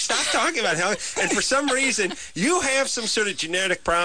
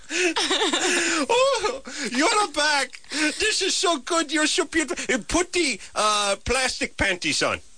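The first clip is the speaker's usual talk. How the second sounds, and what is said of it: Vague put-on Middle Eastern accent. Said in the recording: “I've turned Middle Eastern... Indeterminate... Accent... I have to get more more Eastern Bloc.”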